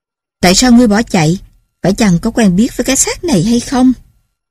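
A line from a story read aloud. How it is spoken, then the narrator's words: Barked question. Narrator (Vietnamese): ông liền quát hỏi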